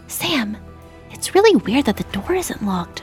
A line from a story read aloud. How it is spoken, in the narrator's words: Mandy whispered